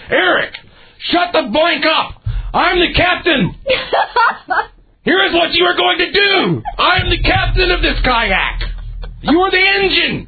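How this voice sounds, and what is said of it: Screaming, losing temper. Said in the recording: “you can hear me finally lose my cool, and I'm screaming”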